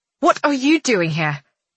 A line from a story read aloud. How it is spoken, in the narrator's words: snaps